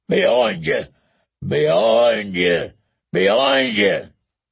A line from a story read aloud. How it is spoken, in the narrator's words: the big man was bellowing